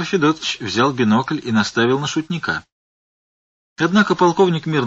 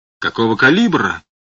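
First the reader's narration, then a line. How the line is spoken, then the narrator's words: Barked. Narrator (Russian): рявкнул полковник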